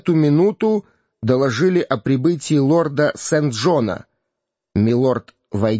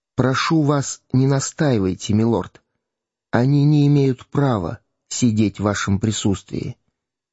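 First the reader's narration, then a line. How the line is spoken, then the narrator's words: Uncle's whisper in the ear. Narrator (Russian): его дядя, граф Гертфорд, шепнул ему на ухо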